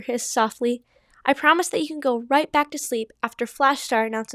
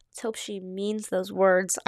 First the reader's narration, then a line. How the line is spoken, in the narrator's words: Ivy Whisker growled under her breath